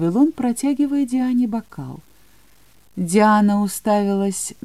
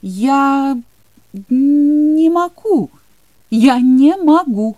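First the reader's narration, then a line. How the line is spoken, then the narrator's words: Exclamation. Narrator (Russian): воскликнула она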